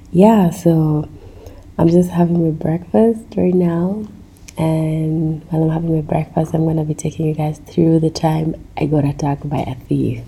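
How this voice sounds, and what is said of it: Congested voice from a cold. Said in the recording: “You can even tell from my voice, I have a cold.”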